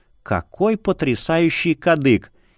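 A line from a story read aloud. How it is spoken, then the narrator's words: Husky whisper. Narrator (Russian): понизив голос, до хрипловатого шепота добавила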